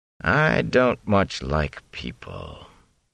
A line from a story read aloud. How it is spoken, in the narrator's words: he said in a flat voice